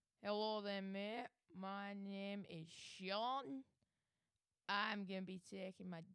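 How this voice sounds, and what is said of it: Put-on Scottish accent. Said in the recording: “Scottish ... you picked the accent”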